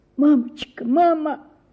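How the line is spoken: Sobbing. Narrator (Russian): сказала, всхлипывая

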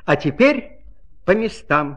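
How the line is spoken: Plain. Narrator (Russian): сказала

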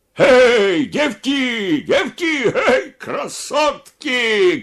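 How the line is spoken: Shouting. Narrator (Russian): кричал Елизаров

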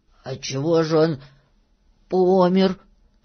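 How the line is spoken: Hoarse question. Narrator (Russian): хрипло спросил Филька

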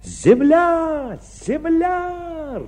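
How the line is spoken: Joyful distant shout. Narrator (Russian): радостно закричал матрос, сидевший на верхушке мачты

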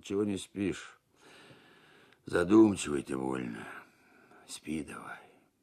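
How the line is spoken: Sleepy yawning old man. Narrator (Russian): Старик, сонно позевывая, спросил

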